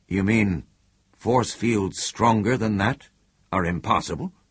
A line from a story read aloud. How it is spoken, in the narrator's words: Burnham said unsteadily